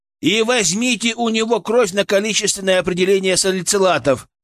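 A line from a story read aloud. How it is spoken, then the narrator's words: Shouted after someone. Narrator (Russian): крикнул я ему вслед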